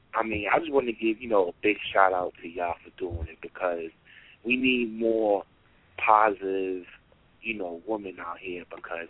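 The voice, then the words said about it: Strong New York accent. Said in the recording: “I can hear that in New York all over you ... oh, we can hear that New York. You got that hard New York accent.”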